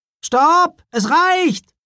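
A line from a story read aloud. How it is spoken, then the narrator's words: Called out. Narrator (German): rief er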